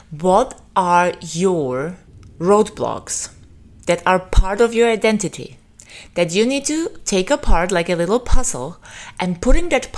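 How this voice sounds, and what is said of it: Non-native English accent, Austrian or Slavic. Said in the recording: “I don't even know what accent I have. Is it Austrian? Is it Slavic? Sometimes yes, sometimes no. ... which accent actually comes through ... in every language, including my mother tongue, I have an accent”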